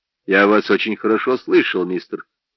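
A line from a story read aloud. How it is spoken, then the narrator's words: Calm driver. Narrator (Russian): спокойно сказал шофер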